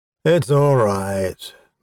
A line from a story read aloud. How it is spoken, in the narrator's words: Mordak sighed